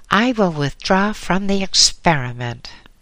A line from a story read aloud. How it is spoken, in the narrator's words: The biologist snapped out sharply